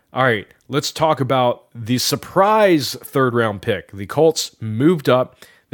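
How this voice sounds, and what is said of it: Excited, enthusiastic voice. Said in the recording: “I am a big fan. You can probably hear it in my voice. Very excited”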